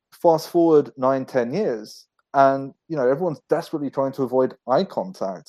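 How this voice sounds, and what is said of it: Northwest London English accent. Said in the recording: “my accent, I grew up in a suburb in northwest London”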